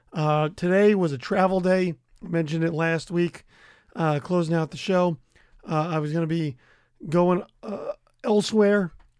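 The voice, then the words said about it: Worn-out, shot voice. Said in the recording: “If you cannot tell from the sound of my voice is shot.”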